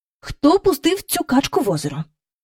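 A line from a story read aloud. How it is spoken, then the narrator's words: Familiar angry voice. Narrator (Ukrainian): спитала таким знайомим їм сердитим голосом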